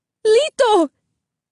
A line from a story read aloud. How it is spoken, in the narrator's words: Isabel cried